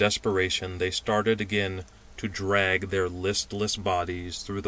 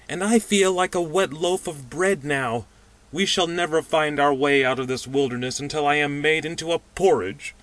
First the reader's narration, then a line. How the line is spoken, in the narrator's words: said the pudgy man moaningly